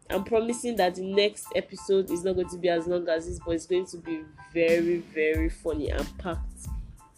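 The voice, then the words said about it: Speaks with a regional accent. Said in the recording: “You know what country I'm from now, from the accent.”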